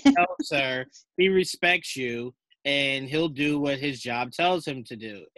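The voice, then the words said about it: Imitates another person's voice. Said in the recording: “that was a great impression. That was so great.”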